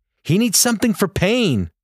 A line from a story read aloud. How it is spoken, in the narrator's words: the nurse in the hallway scream